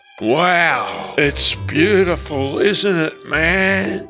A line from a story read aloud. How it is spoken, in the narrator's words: drawled like a stoned diamond appraiser